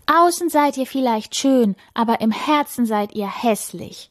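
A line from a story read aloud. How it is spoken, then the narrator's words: Calling out. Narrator (German): ruft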